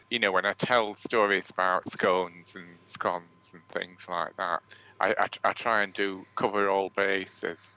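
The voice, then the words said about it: Strong Northern English accent. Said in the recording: “my Northern accent feels like it needs subtitles, particularly if we've done somewhere posh”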